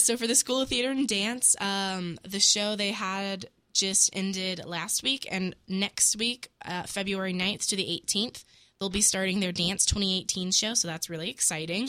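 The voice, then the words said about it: Sick, crackly voice. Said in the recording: “is a little sick ... my voice is a little bit trash ... crackling”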